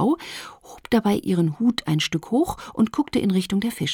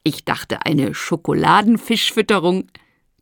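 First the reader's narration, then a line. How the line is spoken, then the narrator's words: Woman laughing. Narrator (German): die Frau lachte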